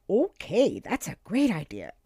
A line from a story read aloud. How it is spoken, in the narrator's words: exclaimed Cooper